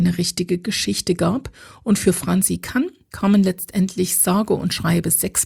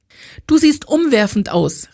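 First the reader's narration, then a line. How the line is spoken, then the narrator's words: Calling through closed car door. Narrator (German): rief sie Ella durch die immer noch geschlossene Autotür zu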